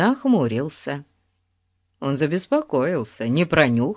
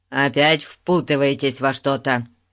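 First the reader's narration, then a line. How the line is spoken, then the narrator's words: Stern question. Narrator (Russian): строго спросил он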